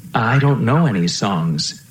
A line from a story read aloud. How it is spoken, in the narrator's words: I said